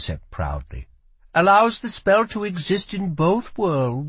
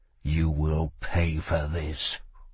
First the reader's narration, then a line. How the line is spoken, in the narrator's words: growled Kell